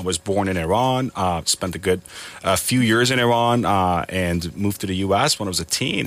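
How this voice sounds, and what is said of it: American accent. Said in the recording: “Spoken with a beautiful American accent, one that I can't quite master at all.”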